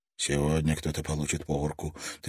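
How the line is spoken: Anxious whisper. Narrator (Russian): тревожно прошептал он сам

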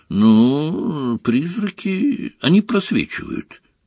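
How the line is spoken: Mumbling. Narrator (Russian): промямлил Гарри

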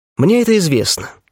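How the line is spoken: Calm. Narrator (Russian): спокойно кивнул я

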